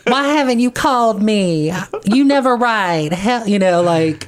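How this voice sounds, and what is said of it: Southern-accented Jewish mother voice. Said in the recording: “overbearing Jewish mother with a Southern accent ... with a Southern drawl”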